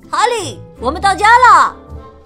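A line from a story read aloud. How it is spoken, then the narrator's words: Loud calling. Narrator (Chinese): 内特大声叫着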